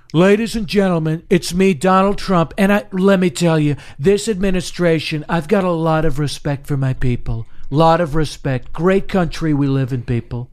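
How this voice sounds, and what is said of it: Donald Trump impression, no New York accent. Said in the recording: “exaggerated Trump ... he doesn't even do a New York accent ... he never even does the added New York accent”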